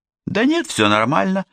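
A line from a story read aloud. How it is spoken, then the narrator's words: Cheerful reply. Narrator (Russian): бодро ответила она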